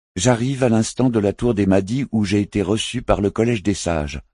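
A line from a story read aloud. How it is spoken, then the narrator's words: Curt, cutting retort. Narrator (French): répliqua Philp d'un ton cassant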